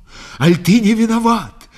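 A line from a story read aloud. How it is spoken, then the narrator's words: Heated shout. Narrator (Russian): крикнула запальчиво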